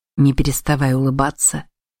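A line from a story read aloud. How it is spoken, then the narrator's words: Quiet. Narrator (Russian): негромко произнес Широ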